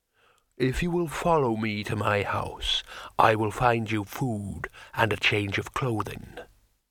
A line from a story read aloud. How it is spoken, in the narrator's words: said the troll solemnly